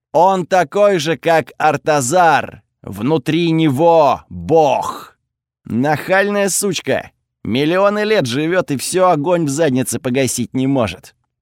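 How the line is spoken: Through gritted teeth. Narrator (Russian): процедил Готфред

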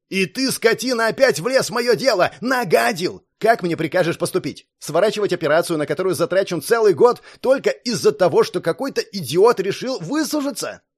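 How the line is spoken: Explosive yelling. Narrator (Russian): взорвавшись, заорал

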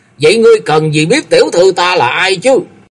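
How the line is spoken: Angry retort. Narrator (Vietnamese): Tống Lãng tức giận đớp lại

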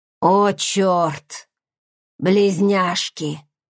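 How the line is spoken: Hoarse rasp. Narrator (Russian): прохрипела

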